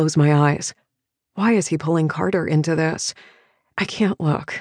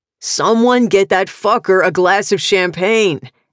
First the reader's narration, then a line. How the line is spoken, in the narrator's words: Asa yells